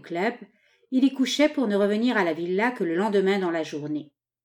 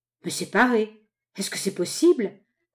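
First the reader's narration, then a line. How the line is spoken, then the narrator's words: Husband growling. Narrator (French): gronda le mari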